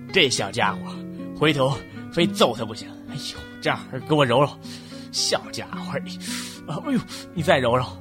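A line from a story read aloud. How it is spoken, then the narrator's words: Muttering. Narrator (Chinese): 老孙头 嘴里嘀咕着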